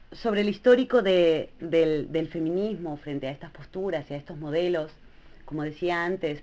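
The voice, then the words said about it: Clearly non-Spain Spanish accent. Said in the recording (Spanish): “como se nota claramente por mi acento, yo no pertenezco ni tengo conciencia viva, ¿no?, de lo que ha sido el movimiento feminista a nivel español”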